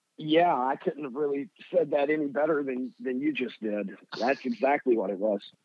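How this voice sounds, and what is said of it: Kentucky hillbilly-sounding Southern accent. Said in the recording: “I could tell by your accent ... it does not sound like you are a Chicagoan ... I sound like a hillbilly ... from Kentucky”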